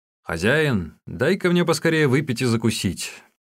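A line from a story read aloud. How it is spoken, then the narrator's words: Shouting. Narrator (Russian): Усун крикнул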